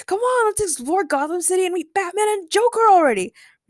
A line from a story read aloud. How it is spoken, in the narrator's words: Ray shouted from within the projection